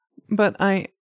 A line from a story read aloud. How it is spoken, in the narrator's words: Winry stuttered